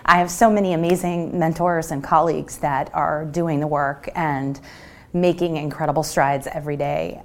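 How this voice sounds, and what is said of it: Choked-up, emotional voice. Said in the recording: “you can see I'm getting a little choked up.”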